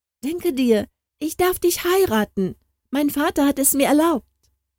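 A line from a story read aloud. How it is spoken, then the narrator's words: Calling out eagerly. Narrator (German): rief es gleich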